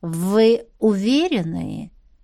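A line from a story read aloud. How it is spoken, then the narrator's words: Insinuating question. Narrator (Russian): вкрадчиво поинтересовался маэстро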